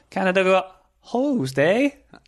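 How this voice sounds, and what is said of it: Put-on Canadian accent. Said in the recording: “Can we anyone do a better Canadian accent than that?”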